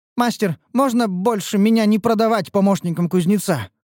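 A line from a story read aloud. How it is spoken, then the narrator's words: Pleading. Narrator (Russian): взмолилась красная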